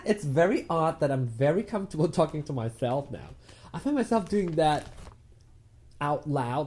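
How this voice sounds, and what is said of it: Hybrid British, American, Malaysian accent. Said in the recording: “why is your British accent coming out a bit more these days? ... I have this hybrid English anyway, of kind of a combination of different things. A bit of British, a bit of American, a bit of Malaysian”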